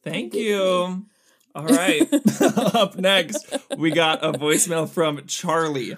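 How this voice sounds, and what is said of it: Usual voice. Nothing is said of it.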